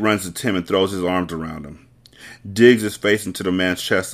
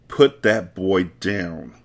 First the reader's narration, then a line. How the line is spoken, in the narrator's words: Elizabeth snaps